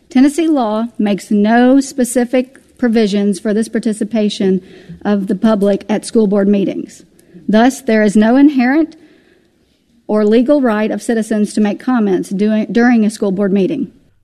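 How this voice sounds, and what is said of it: Genteel Southern accent. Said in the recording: “a very lovely voice with that lovely, genteel Southern accent”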